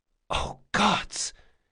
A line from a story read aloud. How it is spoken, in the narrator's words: she whispered